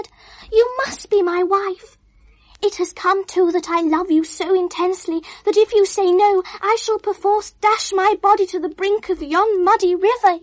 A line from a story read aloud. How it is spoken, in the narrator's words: he panted wildly